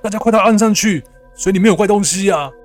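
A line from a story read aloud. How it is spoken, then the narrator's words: Shouting. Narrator (Chinese): 表哥此时大喊着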